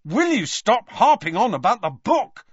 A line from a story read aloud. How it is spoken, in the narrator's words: snapped Harry